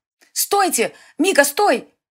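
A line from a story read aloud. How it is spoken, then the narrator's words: Astonished shout. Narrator (Russian): закричала изумленная Селена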